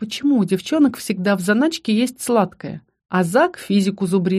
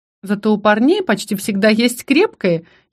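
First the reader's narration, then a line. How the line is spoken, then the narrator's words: Giggling. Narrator (Russian): хихикнула Бри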